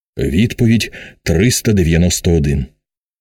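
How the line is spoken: Low voice. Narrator (Ukrainian): Нарешті він проказав низьким голосом

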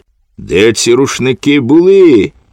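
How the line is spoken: Shouting. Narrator (Ukrainian): крикнула

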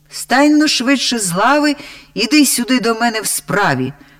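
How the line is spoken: Very loud echoing shout. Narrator (Ukrainian): закричав так голосно, що аж луна у печері відбилася

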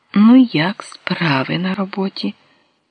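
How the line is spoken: Gentle question. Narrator (Ukrainian): Він лагідно спитав

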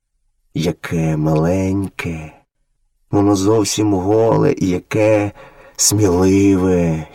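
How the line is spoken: Tender motherly voice. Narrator (Ukrainian): ніжно промовила мати вовчиця

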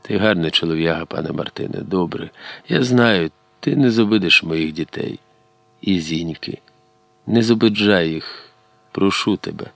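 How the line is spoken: Very quiet, breathless. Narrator (Ukrainian): Іваник передихнув і зовсім тихо, так, що чули тільки ті, хто схилився над возом, сказав

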